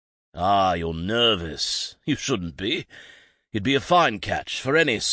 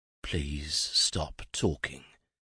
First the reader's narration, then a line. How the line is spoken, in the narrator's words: Jason mumbled from behind his hands